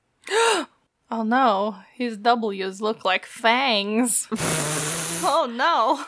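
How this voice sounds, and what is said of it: Count Dracula vampire accent. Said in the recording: “like, a Count Dracula accent”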